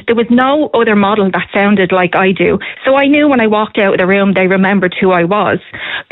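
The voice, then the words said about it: North Cork Irish accent. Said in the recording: “their accent, as somebody from North Cork”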